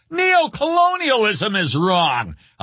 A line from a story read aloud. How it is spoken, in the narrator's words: a leftist student would shout at both of them